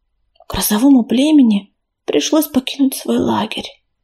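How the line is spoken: Whisper. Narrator (Russian): шепнула сестра

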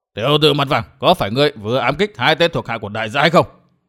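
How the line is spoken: Fierce shout. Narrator (Vietnamese): Hắc y nhân hắn quát

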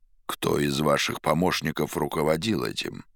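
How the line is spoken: Plain. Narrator (Russian): спросил Пилат

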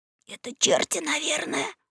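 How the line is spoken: Shuddering whisper. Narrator (Russian): содрогаясь шепнул Гекельбери

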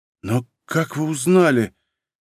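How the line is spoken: Hoarse, faltering question. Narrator (Russian): севшим голосом спросила Варя

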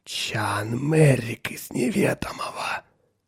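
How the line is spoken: Whisper. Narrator (Russian): прошептал он

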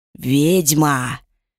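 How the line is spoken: Hissing. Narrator (Russian): прошипел Авар

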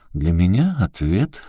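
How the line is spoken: Coroner's short laugh. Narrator (Russian): хохотнул коронер

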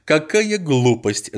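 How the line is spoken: Laughing. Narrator (Russian): засмеялась Эльза

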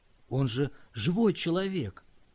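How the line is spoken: Quiet, after long silence. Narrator (Russian): Скотт долго молчал, наконец тихо произнес

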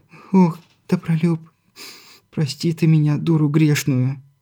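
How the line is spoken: Breaking into sobs. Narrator (Russian): Не выдержав, разрыдалась молодая мать

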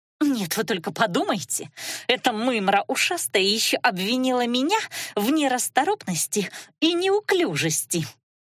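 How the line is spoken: Indignant hiss. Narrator (Russian): возмущенно прошипела целительница

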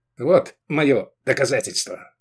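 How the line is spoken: Curt, clipped. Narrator (Russian): отрывисто сказал он

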